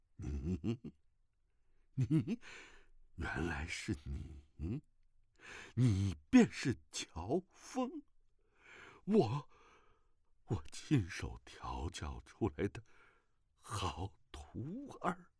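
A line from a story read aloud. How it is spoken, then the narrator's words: Trembling, shocked voice. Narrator (Chinese): 那玄苦大师突然之间脸色大变，颤声道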